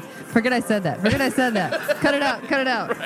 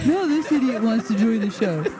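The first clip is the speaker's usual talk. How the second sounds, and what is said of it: Imitates another person's voice. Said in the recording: “That was my Mark impersonation voice”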